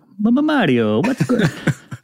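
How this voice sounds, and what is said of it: Pretty good put-on Italian accent. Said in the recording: “your Italian accent. That was pretty good.”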